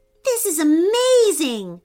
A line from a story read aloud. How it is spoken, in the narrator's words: shouted Bennett over the buzz of the honeybee's wings